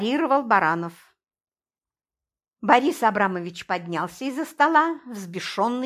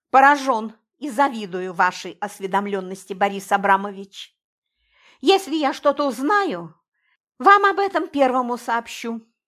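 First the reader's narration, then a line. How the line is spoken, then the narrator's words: Somewhat sharp. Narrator (Russian): несколько резко ответил Сергей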